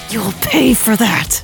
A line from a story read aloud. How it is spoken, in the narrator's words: she hisses